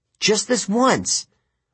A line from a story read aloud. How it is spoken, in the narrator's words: I pleaded